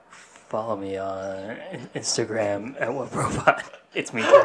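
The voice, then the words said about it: Breathy impression of another person. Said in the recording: “we all just get weirdly breathy when we're trying to do a Diddy impersonation”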